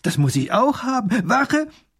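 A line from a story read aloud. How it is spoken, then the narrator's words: Delighted call. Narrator (German): ruft der kleine Großherzog erfreut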